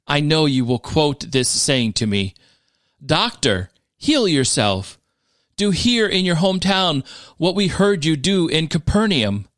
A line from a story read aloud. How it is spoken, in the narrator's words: He said